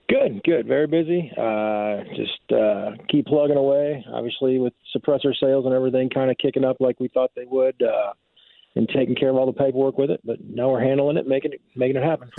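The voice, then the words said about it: Tired-sounding voice. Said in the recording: “You sound tired.”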